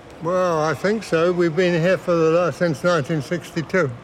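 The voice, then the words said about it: British English accent. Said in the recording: “You're a British man, I'm British, guessing. ... you noticed I got a funny accent”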